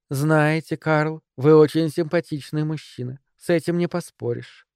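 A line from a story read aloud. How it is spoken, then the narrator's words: Sweet tone. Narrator (Russian): сладким тоном заговорила она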